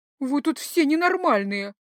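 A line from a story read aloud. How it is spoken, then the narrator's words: Grumbled. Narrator (Russian): буркнула я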